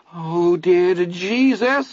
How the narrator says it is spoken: Vern whimpered, his voice high and filled with tears

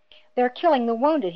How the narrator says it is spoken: he cried in anguish

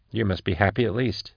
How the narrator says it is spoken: murmured Max

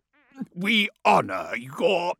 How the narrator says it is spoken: croaked

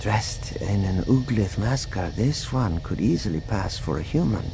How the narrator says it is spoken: she whispered to Vergaer

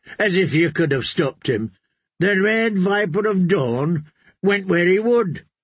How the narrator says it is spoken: O'Bara laughed

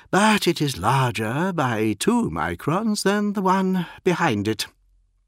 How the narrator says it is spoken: the aide sighed

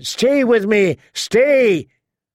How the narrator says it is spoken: he shouted

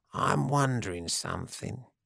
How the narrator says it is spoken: he said, his voice soft

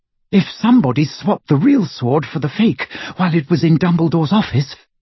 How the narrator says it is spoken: she panted

